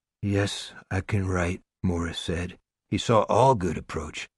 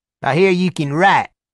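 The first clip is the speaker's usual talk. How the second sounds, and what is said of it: Deep Southern US accent. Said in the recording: “this fella said with an unmistakable deep South accent.”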